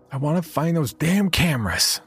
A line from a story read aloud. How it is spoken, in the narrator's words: she yelled at me